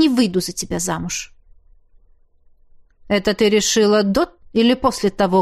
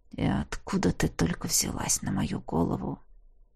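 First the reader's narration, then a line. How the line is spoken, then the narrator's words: Through gritted teeth. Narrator (Russian): процедил он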